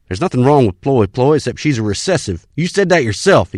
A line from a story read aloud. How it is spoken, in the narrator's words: snapped